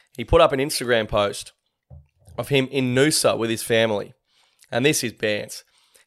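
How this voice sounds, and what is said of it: Hoarse, fading voice. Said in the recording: “losing my voice a bit here.”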